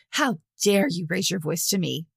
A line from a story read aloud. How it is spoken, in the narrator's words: Gisa spat back